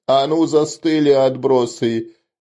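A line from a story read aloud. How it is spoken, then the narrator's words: Furious roar. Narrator (Russian): яростно взревел он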